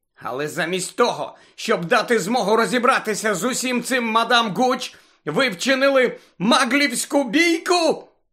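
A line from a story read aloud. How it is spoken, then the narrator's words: Shout. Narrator (Ukrainian): закричала професорка МакГонагал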